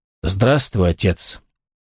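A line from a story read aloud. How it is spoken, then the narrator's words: Quiet. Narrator (Russian): тихо проговорил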